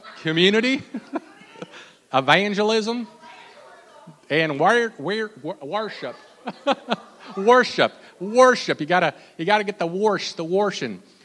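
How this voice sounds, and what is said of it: Exaggerated put-on Southern US accent. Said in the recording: “This time say it in your best Southern accent. ... I apologize to anyone who's listening who's from Kentucky or further south.”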